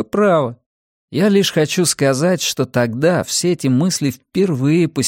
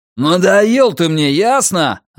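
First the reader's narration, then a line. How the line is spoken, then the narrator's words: Father yelling. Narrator (Russian): орал папочка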